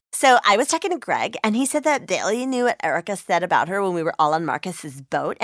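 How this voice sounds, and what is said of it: Reality TV star voice. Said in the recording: “my impression of a reality TV star”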